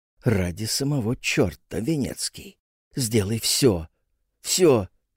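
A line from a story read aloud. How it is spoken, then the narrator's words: Restrained quiet irritated young man. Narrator (Russian): молодой, озабоченный и раздраженный, он сдержанно тихо говорил другу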